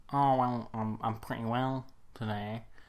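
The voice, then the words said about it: Poor imitation of another person's voice. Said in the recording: “you doing that voice ... my impression of him ... It's not very good ... I'm just sort of doing a voice.”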